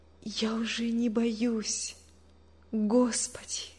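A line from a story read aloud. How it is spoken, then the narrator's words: Whisper. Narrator (Russian): прошептала она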